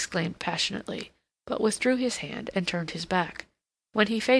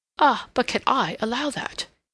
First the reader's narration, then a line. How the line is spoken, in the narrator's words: he exclaimed